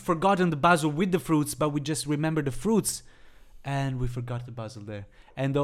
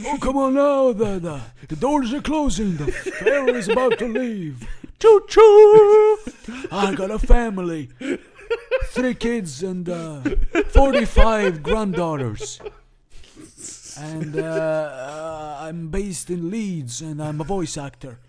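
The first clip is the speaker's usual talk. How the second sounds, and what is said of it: Put-on ferry conductor accent. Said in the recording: “your accent you just did there... the ferry conductor? Can you do that accent again?”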